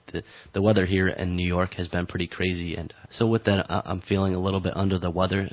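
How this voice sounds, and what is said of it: Strained, fading voice. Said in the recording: “my voice is starting to give out”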